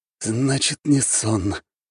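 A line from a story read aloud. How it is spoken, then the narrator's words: Whisper. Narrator (Russian): прошептал Свят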